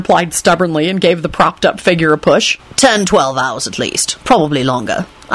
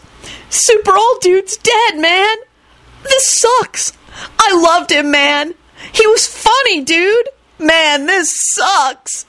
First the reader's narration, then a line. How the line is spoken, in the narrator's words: He buried his face in his hands and started bawling